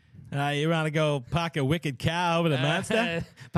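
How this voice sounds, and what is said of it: Put-on Boston accent. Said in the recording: “Let me hear your Boston accent. ... It's a really bad accent.”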